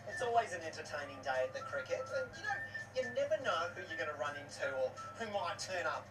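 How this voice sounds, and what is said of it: Australian accent. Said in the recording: “an Australian accent. This is an actual Australian person.”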